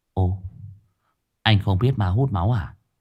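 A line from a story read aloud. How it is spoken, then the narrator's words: Quiet, low voice. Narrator (Vietnamese): Nó nhỏ giọng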